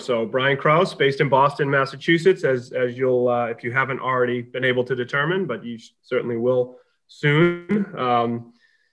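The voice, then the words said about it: New England (Boston) accent. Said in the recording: “how am I doing with my Canadian accent on the New England accent? ... I'll probably do better”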